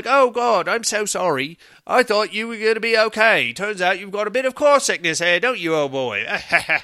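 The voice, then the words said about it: Poor imitation British accent. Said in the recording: “That's not what she sounds like ... that was a terrible British accent”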